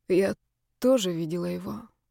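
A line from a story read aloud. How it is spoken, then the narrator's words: Quiet, haunted. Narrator (Russian): проговорила я тихо, вспоминая это жуткое сновидение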